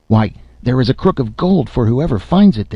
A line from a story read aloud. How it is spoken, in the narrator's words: they cried, so eager were they for the gold